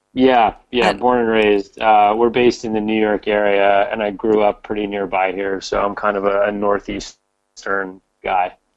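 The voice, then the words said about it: American accent. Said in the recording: “everyone will be guessing from your accent that you're in the United States”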